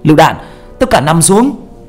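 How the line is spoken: Urgent shout. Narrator (Vietnamese): tiếng hét của một người trong nhóm của ba

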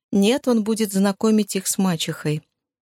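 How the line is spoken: Suspiciously calm reply. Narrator (Russian): подозрительно спокойным тоном ответила Рия

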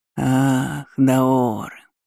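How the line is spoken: Ghost drawling. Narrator (Russian): протянул призрак

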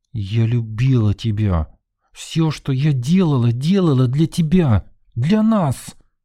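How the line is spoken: Through gritted teeth. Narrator (Russian): процедила сквозь зубы Нина

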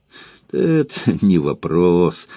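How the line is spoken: Laughing. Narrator (Russian): засмеялся Антон

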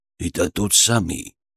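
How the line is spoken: Muttering bull. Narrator (Russian): пробормотал первый бык, которого я вылечил у входа

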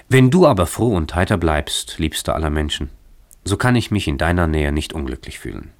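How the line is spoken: Smiling and sighing. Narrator (German): antwortete sie lächelnd und zugleich seufzend

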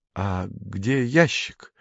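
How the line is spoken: Frightened question. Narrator (Russian): испуганно спросил Женя

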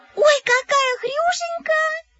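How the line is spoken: Squealing. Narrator (Russian): запищала Ирка Мухина

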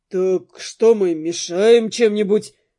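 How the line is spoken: Snorting. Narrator (Russian): фыркнул Дэн

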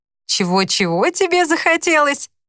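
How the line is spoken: Laughing. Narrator (Russian): Он рассмеялся

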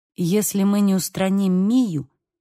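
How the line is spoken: Very calm. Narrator (Russian): очень спокойно произнес Бейл

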